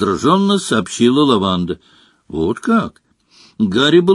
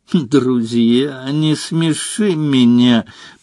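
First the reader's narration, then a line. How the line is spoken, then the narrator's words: Contemptuous hiss. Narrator (Russian): презрительно процедила Лаванда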